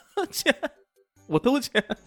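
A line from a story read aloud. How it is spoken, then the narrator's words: Terrified shout. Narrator (Chinese): 石飞吓得半死，连忙大喊道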